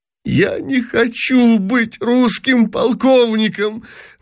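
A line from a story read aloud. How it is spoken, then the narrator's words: Sobbing exclamation. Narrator (Russian): восклицал, рыдая, принц Евгений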